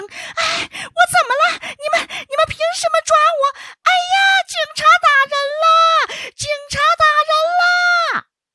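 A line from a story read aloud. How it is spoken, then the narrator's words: Shrill, crisp female voice. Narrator (Chinese): 她这个声音是又尖又脆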